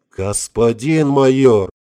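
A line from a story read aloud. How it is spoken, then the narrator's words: Howled. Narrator (Russian): взвыл Влад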